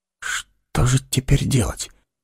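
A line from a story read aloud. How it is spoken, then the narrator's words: Whispered question. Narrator (Russian): шепотом спросил Эггерт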